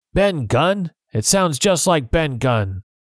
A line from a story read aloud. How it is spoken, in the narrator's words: Suddenly, Silver shouted